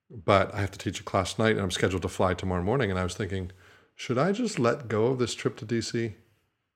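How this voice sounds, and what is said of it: Weakened, recovering voice. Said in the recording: “I've been struggling with my voice ... I lost my voice. It's a little bit better, clearly.”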